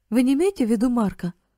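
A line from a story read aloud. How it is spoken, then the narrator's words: Astonished exclamation. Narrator (Russian): воскликнул Карл в крайнем изумлении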